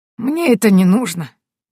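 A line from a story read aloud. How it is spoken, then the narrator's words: Hunter, sad smiling voice. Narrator (Russian): грустно улыбнулся охотник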